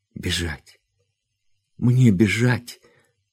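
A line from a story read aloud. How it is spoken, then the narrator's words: Sobbing exclamation. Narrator (Russian): воскликнула она, рыдая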